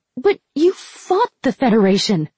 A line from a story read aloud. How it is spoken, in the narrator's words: Ren exclaimed